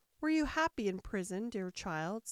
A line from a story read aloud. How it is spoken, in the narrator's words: said Hare